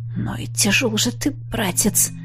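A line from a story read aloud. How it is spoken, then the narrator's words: Strained wry snort. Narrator (Russian): хмыкнул я, с трудом дотащив Аши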